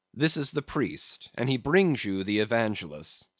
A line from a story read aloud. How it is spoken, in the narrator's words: said Don Sebastian gravely